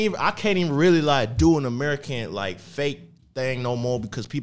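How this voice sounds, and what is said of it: Usual voice. Nothing is said of it.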